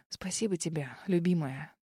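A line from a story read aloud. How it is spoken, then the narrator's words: Soft whisper. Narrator (Russian): тихо прошептал Норман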